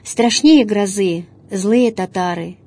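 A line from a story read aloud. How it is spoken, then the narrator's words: Heavy sigh. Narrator (Russian): Тяжко вздохнул он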